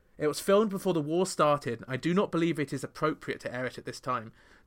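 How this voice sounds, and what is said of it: Put-on British accent. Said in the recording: “I'm doing it in a British accent there, as you can hear, because that's how Madonna talked at the time”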